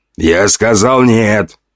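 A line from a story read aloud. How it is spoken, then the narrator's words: Growl. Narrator (Russian): рыкнул на них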